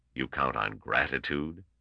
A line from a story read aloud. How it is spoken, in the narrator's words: asked Gorov coldly